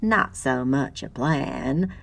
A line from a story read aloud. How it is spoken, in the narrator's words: Lucy chuckled